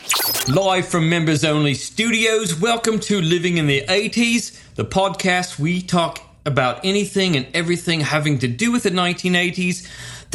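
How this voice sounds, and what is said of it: Poor put-on British accent. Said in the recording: “this is our British episode... my accent is crap”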